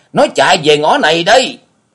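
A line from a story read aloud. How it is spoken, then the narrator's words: Loud clamorous shout. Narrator (Vietnamese): chiếc bóng kia mồm quát lên inh ỏi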